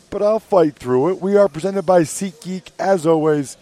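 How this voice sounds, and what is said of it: Strained, hoarse voice. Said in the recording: “I'm losing my voice just a little bit”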